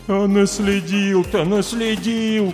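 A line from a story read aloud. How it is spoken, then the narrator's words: Groaning. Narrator (Russian): простонал линолеум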